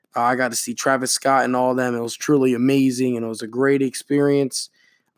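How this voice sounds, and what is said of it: Slightly faded, worn voice. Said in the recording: “my voice sounds a little bit faded, it's because of a long weekend”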